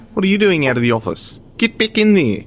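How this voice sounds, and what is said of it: Dodgy put-on New Zealand accent. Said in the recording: “I'm going to put on a very dodgy New Zealand accent”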